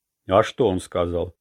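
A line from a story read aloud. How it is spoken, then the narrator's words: Stern question. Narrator (Russian): строго спросил Манки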